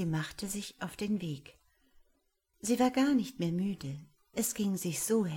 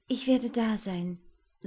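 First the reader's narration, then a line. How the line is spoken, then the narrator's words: Plain. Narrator (German): sagte Angeletta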